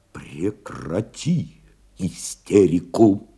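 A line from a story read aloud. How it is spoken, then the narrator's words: Quiet command. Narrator (Russian): тихо приказал Новиков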